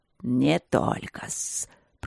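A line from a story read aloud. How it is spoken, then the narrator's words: Hissing spirit. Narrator (Russian): прошипел дух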